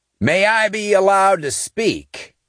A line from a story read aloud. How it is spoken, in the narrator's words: Cross shouted